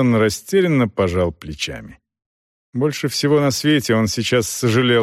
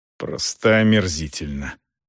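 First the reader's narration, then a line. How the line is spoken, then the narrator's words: Angry grumble. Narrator (Russian): сердито буркнул Клеон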